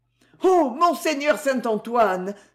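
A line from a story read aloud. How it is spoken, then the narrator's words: Panicked young lady exclaiming. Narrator (French): s'écria la demoiselle affolée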